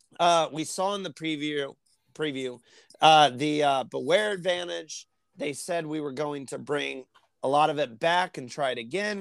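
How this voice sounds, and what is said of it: Strained, fading voice. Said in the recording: “I'm losing my voice. I'm pushing through.”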